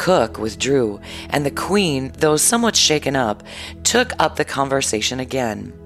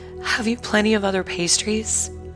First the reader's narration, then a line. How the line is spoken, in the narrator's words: ask in a weak voice